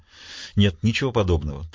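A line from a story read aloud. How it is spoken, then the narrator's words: Hurried. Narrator (Russian): торопливо сказал Смитбек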